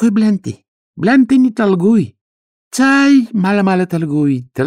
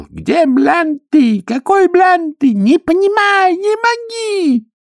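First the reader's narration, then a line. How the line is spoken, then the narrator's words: Desperate shout. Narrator (Russian): китаец чувствуя, что терять ему нечего, закричал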